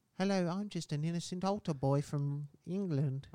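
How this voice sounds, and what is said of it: Put-on child's voice. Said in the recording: “Do your kid voice.”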